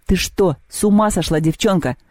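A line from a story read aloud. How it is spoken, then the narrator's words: Barked. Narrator (Russian): рявкнул он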